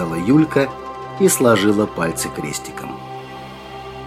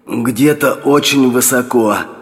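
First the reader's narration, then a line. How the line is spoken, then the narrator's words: Hoarse rasp. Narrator (Russian): прохрипел Че Гевара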